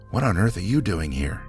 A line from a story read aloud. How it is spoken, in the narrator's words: the man answered